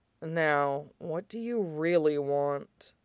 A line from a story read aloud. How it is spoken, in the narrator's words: murmured against his lip